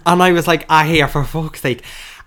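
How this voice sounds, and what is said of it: Exaggerated put-on accent. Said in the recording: “why are you putting on that accent?”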